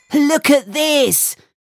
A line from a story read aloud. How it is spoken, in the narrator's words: yelled Max